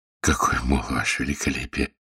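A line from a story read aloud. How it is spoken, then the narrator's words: Mumbling, man. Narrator (Russian): пробормотал он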